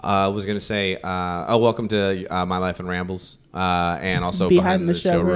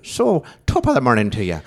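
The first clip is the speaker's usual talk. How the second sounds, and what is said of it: Put-on Irish accent. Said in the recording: “if you want to talk in an Irish accent, you just, pirate, and you just octaves.”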